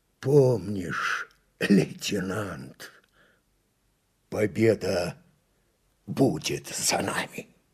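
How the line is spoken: Hoarse, breathless. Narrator (Russian): с хрипом, задыхаясь, произнес

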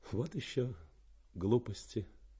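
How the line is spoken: Smiling mutter. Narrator (Russian): Слегка улыбнувшись, она пробормотала

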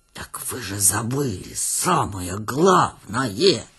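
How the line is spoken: Tragic hissing whisper. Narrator (Russian): трагическим шепотом свистел он

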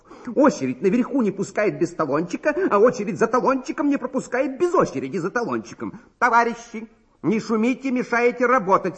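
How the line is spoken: Angry. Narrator (Russian): сердито сказала регистраторша

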